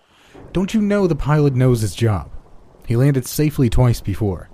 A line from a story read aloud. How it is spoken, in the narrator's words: He said angrily to the explorer